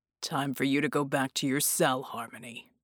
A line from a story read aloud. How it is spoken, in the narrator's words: he growled